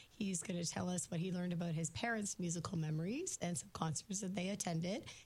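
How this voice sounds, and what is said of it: Sick-sounding voice. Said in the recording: “As you can hear in my voice, I'm pretty sick ... I just am not feeling well.”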